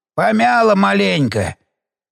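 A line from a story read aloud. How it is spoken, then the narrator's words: Hoarse old man. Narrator (Russian): севшим голосом ответил дед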